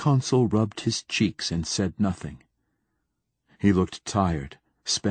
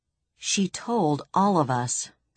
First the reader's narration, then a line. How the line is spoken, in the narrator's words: snapped Braun Lamia